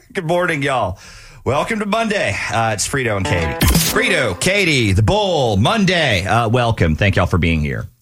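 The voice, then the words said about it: Exaggerated Southern accent. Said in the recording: “you put one on. And I mean, you really exaggerate it ... the Southern accent”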